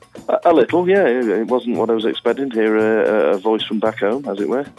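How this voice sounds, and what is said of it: Northern English accent. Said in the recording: “You sound like you're from the Midlands. ... Just above the Midlands. I live in Cheshire, so beginning of the northwest.”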